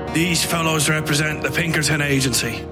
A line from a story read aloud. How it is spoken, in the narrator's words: the little man said in his odd, gruff voice